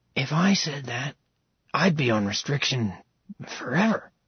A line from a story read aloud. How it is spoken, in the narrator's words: Hayden mumbled to his sister